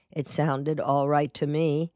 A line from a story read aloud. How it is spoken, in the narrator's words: Lunk said in a flat, emotionless voice of a man who isn't trying to convince anyone